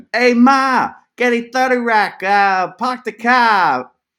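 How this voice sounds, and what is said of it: Put-on Boston accent. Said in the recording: “Here's my Boston accent. ... Does that sound like Mark Wahlberg?”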